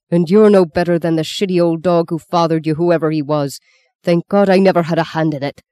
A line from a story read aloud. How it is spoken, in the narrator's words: shouted Paddy